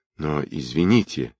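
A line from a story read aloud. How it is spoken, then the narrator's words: Gentle objection. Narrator (Russian): мягко возразила Настя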